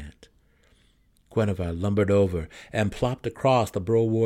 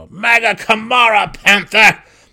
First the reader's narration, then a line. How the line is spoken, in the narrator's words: deep gnome growled